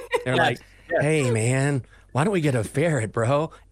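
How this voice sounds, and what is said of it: Stoned dude voice. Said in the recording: “they're always high ... You nailed that impression.”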